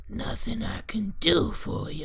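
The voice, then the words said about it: Imitates a creepy old witch's voice. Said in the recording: “hear that impression? ... Yeah, that was good. ... You sound that's just like point. Her.”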